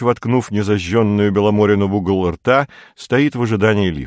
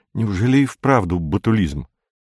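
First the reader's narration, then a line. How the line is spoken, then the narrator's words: Frightened question. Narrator (Russian): Феликс испуганно спрашивает его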